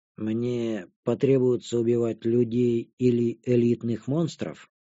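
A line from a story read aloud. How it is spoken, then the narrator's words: Calm question. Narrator (Russian): Спокойно поинтересовалась безымянная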